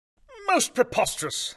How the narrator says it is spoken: I exclaimed

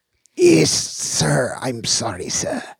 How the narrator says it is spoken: said Slopes, gasping

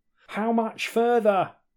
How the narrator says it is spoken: shouted Drax

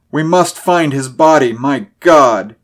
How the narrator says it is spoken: he cried, unmanned by the abysmal horror of the thing

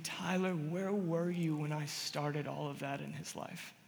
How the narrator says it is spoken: whispering

